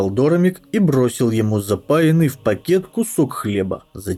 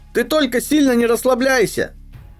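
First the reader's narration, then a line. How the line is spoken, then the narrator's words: Parting shout. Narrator (Russian): крикнул напоследок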